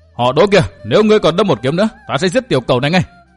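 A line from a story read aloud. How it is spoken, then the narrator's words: Shout. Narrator (Vietnamese): Bạch Y Đồng diện quát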